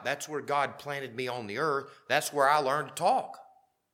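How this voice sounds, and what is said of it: Southern US accent. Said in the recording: “I don't mind having a southern accent”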